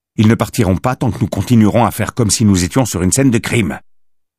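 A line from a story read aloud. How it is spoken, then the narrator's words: Curt retort. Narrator (French): répliqua Carver d'un ton sec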